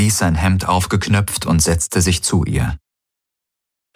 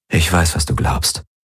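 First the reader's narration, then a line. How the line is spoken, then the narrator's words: Gentle. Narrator (German): sagte er sanft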